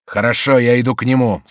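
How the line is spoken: Commanding tone. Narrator (Russian): сказал повелительным тоном виконт Дексме

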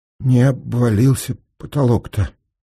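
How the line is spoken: Trembling voice. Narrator (Russian): сказал Сенька дрожащим голосом

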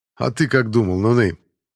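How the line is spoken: Laughing. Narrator (Russian): засмеялся Семен

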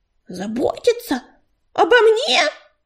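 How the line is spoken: Indignant shout. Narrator (Russian): негодующе закричала Белочка

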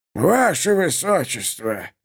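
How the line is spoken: Muttered. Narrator (Russian): пробормотал граф Элиас

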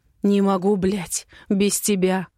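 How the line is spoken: Hoarse, into neck. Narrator (Russian): хрипит в шею

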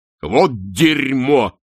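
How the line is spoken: Barking snap. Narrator (Russian): рявкнул чудак Улли

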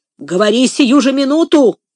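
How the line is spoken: Harsh bark. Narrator (Russian): рявкнул Легри

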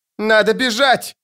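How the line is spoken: Shouted. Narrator (Russian): закричала Коралл

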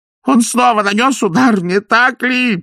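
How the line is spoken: Moaning. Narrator (Russian): простонал Пакет

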